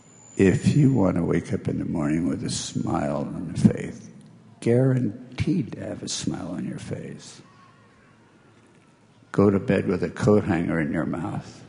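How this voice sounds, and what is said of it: Whispering. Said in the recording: “I'm going to have to whisper it”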